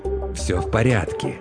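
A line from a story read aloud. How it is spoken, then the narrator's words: Trying to sound gentle. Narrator (Russian): Благочестивый старался говорить по возможности ласковым тоном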